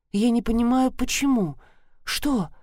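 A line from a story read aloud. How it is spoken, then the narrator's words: Surprised strained utterance. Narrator (Russian): удивленно выдавил он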